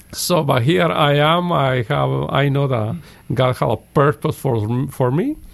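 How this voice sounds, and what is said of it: Strong foreign accent. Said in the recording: “my accent is kind of ... a little strong”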